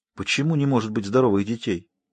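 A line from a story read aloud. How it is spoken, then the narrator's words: Very quiet question. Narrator (Russian): Рила спросила совсем тихо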